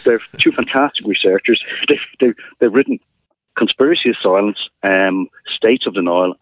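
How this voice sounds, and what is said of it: Dublin Irish accent. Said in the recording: “I'm from the north side of Dublin ... my Dublin accent”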